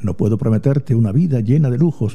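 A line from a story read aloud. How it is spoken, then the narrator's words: Plain. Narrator (Spanish): dijo Adrián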